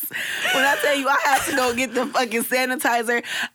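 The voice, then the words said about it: Imitates another person's voice. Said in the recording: “in my Katt Williams voice.”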